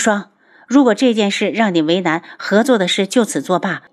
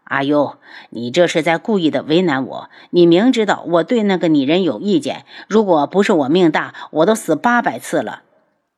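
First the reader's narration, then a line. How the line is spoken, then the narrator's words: Discontented sigh. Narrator (Chinese): 无双不满地叹气道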